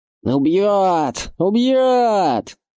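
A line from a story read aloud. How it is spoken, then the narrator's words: Raven screeching. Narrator (Russian): завопил ворон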